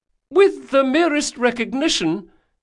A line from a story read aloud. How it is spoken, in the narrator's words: continued the young duelist desperately